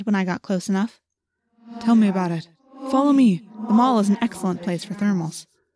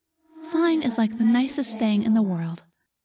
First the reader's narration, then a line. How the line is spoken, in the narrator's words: I said dreamily